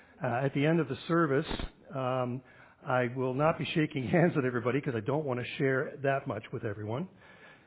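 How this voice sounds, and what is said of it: Hoarse voice from a cold. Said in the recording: “I have considerably more voice than I had 2 days ago, and much more voice than I had a week ago, but I'm still not over my cold quite yet, so I apologize for my voice in advance, and I will try to do my best to be clear and cough-free.”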